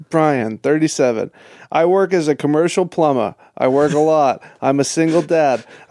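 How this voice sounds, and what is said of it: Imitates another person's voice. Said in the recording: “the best impression of your dad ... your best Rivia accent”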